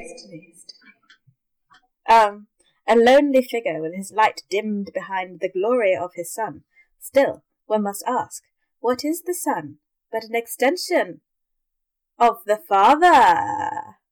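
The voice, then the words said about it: Character voice of a princess. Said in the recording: “You honoured Princess Irulan by doing her voice.”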